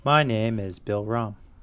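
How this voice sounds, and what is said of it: Flat monotone delivery. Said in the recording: “I'm going to try to do this entire podcast monotone ... The most welcome boring Grounds Crew podcast of all time.”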